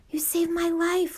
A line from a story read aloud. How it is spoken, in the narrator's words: muttered back